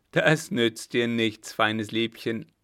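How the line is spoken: Laughing. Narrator (German): lachte der eine

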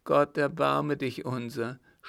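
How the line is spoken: Trembling sob. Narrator (German): schluchzte Nanon, indem sie sich zitternd in die Ecke schmiegte

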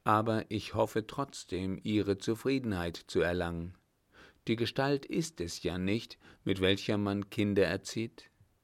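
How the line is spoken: Very calm. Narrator (German): antwortete Müller sehr ruhig

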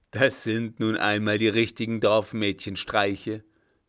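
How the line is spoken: Old man jeering. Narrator (German): höhnte der Alte

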